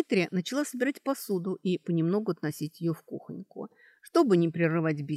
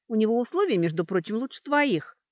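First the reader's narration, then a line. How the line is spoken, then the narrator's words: Angry reply. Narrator (Russian): сердито откликнулась Сашка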